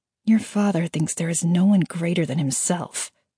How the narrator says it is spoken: she muttered

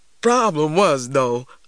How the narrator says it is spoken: laughed Uncle Hammer

